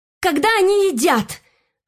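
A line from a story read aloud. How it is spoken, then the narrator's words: Shouting out. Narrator (Russian): выкрикнула с места Мишель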